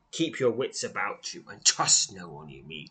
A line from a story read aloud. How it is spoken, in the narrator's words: he says, keep, keeping his tone grave, bordering on pleasant